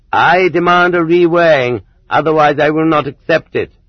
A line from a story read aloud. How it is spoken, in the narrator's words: the dissatisfied prisoner declared loudly